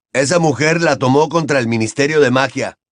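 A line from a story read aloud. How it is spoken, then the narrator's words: Furious exclamation. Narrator (Spanish): exclamó Percy, furioso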